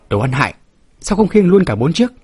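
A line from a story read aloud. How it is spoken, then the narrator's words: Shrieking. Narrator (Vietnamese): Cái Trường Trinh hét toáng lên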